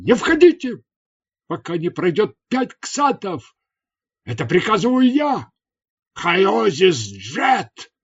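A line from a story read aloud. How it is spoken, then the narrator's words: Sudden shout. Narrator (Russian): сразу же крикнул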